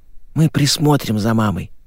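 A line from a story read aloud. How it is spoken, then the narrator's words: Whisper. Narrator (Russian): прошептала Саша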